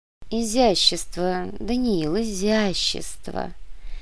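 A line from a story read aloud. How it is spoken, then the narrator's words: Soft voice. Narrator (Russian): мягким голосом произнес Леопольд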